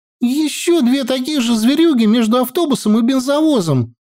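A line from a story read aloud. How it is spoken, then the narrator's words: Loud squeak. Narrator (Russian): громко пискнула она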